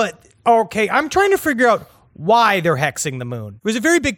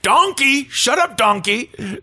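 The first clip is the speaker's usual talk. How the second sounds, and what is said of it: Cartoon ogre character voice. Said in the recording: “That's my Shrek impression. ... That is really very good.”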